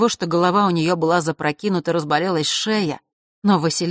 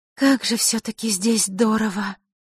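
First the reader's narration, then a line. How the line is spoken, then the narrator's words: Breathless exclamation. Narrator (Russian): Не сдержавшись, выдохнула Василиса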